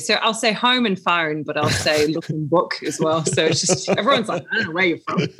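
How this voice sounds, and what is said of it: Northern English accent. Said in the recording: “accent doesn't sound Australian. It sounds more Northern England ... I'm a Stokey”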